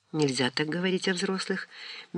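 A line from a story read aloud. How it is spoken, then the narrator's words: Gentle reproach. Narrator (Russian): мягко укорила Лидия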